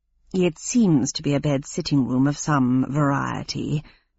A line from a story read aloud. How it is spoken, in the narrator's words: murmured Sprocket